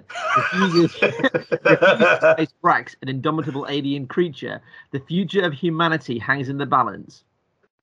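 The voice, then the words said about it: Put-on American accent. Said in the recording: “I don't know why I'm doing an American accent”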